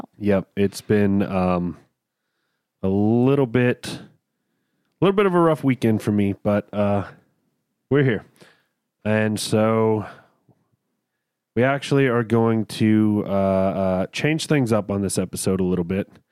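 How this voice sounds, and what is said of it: Sick, messed-up sounding voice. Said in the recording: “I'm a little under the weather ... Your voice is a little messed up”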